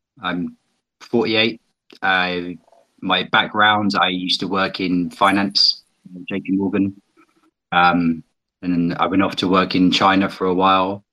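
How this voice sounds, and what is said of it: British accent. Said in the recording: “as you may be able to tell from my accent, I'm from Britain.”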